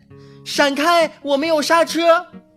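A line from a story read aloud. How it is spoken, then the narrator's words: Distant shout. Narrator (Chinese): 从远处传来一声大喊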